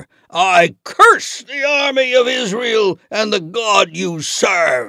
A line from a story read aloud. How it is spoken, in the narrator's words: he shouted